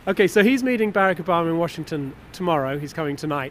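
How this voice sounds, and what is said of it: British accent. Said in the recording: “my accent is a clue ... British”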